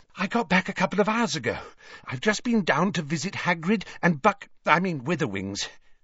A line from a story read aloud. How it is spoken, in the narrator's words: she said breathlessly